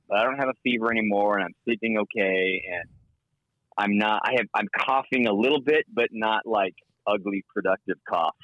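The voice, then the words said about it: Unusually low, ill-sounding voice. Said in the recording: “my voice is still like an octave lower”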